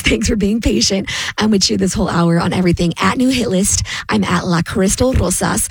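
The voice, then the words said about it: Hoarse, strained voice. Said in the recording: “I'm still getting through this laryngitis.”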